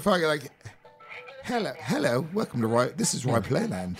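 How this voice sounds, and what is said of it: Put-on British accent. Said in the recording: “We hire British people to answer our phones... Your accent.”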